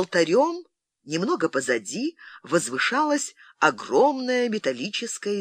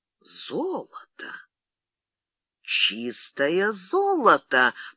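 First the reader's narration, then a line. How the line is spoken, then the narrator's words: Whisper. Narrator (Russian): прошептал Фрэнсис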